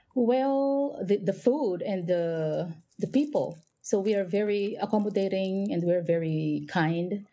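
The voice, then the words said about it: Filipino-accented English. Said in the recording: “that's quite a lovely accent you have. Where are you from? ... I'm from the Philippines.”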